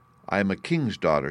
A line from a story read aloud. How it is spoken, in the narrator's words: she said